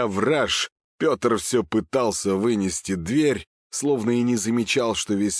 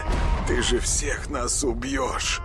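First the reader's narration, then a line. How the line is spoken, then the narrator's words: Tearful mumble. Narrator (Russian): Слезливо пробормотал он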